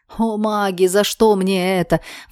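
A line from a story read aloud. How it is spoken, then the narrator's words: Roar. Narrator (Russian): взревел Алекс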